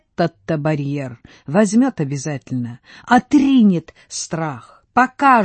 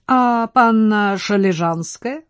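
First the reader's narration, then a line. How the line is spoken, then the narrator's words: Plain. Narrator (Russian): спросил Брохвич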